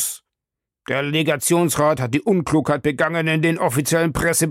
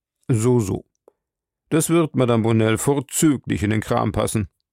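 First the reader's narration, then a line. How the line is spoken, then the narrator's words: Dry remark. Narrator (German): bemerkte mein Chef trocken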